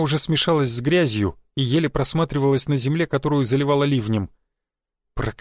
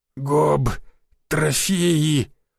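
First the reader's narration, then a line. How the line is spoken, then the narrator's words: Hoarse, unrecognizable voice. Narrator (Russian): прохрипел я не своим голосом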